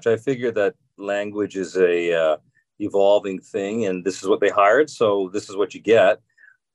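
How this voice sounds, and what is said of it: Mild Canadian accent in vowels. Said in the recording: “you're not saying a boat like you did. You avoided saying a boat like Canadians say, but you do have a certain kind of accent with your vowels... you don't sound like Midwestern, like annoying nasal vowels”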